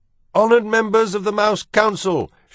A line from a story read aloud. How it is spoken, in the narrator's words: shouted Furlow